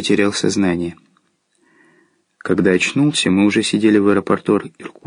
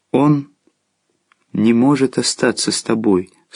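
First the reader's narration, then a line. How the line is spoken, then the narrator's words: Calm reply. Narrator (Russian): спокойно ответил Агван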